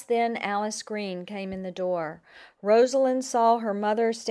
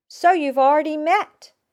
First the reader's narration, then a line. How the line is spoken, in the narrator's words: exclaimed